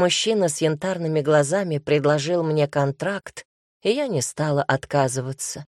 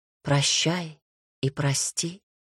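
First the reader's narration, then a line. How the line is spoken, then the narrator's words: Whisper. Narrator (Russian): прошептала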